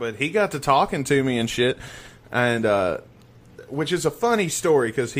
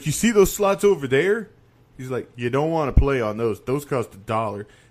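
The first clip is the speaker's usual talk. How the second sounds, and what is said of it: Imitates another person's accent. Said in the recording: “I'm not making fun of his accent; it's just the way he talks when I tell the story”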